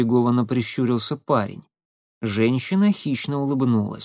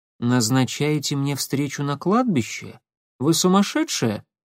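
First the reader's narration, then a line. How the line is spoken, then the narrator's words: Calm inquiry. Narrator (Russian): спокойно осведомился Никита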